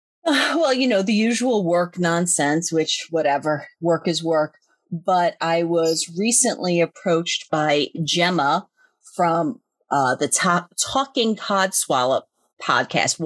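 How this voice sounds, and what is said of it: New York accent. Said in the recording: “my New York accent... I think it's your accent”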